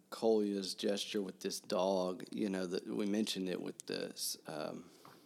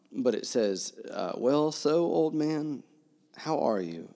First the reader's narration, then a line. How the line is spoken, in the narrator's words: It says, but his voice broke